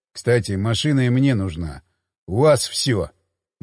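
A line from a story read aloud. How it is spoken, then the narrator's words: Gloomy. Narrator (Russian): мрачно сказал Хмель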